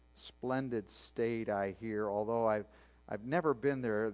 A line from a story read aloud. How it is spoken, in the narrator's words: the stranger said